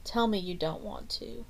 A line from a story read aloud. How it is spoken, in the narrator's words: Debbie murmured